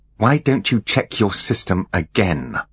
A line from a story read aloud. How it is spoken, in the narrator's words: said Holly, through gritted teeth